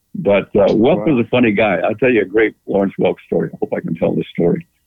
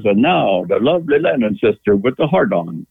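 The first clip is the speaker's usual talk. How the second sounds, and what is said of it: Imitates another person's accent, well done. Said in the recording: “he had quite an accent ... You got that accent down pretty good”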